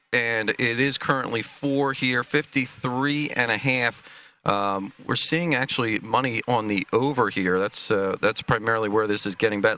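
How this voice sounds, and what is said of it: Baltimore, Pennsylvania, Jersey accent. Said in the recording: “you have an accent that is Baltimore, Pennsylvania, and Jersey.”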